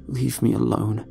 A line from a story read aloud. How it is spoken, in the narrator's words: muttered under my breath